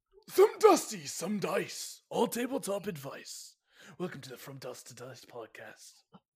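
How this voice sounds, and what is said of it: Dusty, coffin-like croaky voice. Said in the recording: “What was that voice? ... It sounds very dusty. ... it sounds like you just rose from a dusty coffin.”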